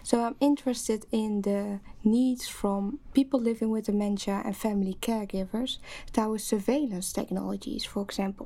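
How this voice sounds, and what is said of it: Dutch accent in English. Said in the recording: “as you might uh, hear from my accent, I'm uh, originally from the Netherlands”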